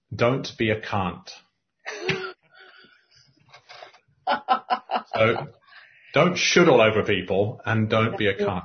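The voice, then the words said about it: South London accent. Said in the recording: “not in the posh accent I'm going to use, but in more of a sort of south of London accent.”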